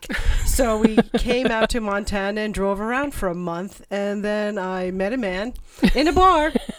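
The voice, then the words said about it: New York accent. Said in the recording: “that accent isn't from around here ... I'm from New York.”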